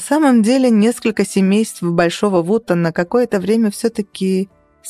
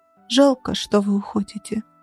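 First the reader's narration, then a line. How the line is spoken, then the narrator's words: Small child, quiet words. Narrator (Russian): маленький Тим тихо вымолвил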